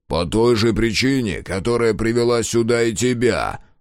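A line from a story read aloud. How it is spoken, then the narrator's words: Growled. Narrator (Russian): прорычал Мюррей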